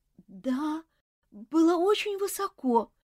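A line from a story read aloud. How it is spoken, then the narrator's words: Boy's trembling voice. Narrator (Russian): дрожащим голосом ответил мальчик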